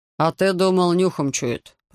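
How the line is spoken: Grumbling. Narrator (Russian): проворчал Фрицис

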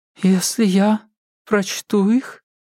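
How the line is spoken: Uncertain. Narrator (Russian): неуверенно начала она

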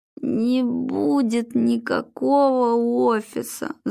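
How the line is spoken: Groaning. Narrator (Russian): застонал Глеб

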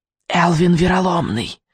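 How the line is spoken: Witch's whisper. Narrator (Russian): прошептала ведьма

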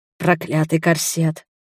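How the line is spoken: Whisper. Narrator (Russian): шепнул Ральф

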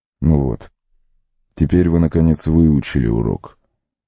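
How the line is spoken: Gentle, smiling. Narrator (Russian): мягко улыбнулся Колоброд

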